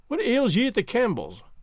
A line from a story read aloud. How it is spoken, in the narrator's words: I cried